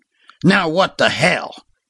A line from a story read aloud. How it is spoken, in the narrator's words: grunted that hardened warrior